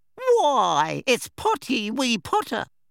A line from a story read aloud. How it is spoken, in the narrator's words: cackled Peeves